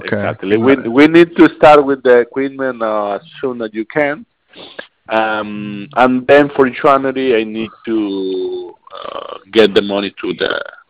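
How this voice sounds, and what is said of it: Strong foreign accent. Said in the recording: “my accent is strong”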